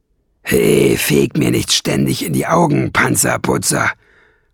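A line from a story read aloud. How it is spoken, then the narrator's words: Grunted. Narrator (German): grunzte Nesselbrand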